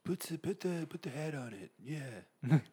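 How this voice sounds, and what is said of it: Imitates another person's voice. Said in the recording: “my Donald Trump impression”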